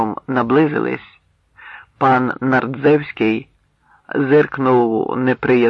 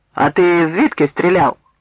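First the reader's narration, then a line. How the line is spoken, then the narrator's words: Angry question. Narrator (Ukrainian): Нардзевський сердито запитав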